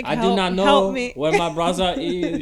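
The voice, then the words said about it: Imitates another person's accent. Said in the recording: “a Bernard Renault accent ... that's not even an accent you can follow”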